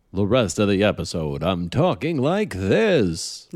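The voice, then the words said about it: Exaggerated radio announcer voice. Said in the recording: “Radio voice.”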